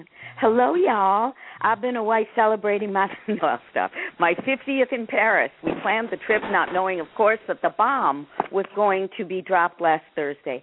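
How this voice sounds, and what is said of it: Slight put-on Southern accent. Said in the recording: “I have to do it with a slight Southern accent.”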